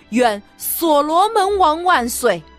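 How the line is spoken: Loud proclamation. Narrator (Chinese): 大声说

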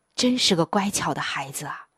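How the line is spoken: Sighing. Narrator (Chinese): 妻子叹着气说

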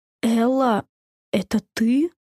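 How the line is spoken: Trembling voice. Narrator (Russian): дрожащим голосом спросил Сэмми

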